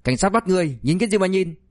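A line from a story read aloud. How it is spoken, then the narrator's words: Shouting. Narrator (Vietnamese): Diệp Soái hét lên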